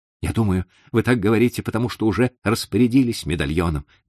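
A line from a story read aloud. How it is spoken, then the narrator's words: Exclamation. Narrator (Russian): воскликнул Гофман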